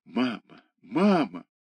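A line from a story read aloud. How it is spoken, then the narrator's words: Crying whisper. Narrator (Russian): плача, он шептал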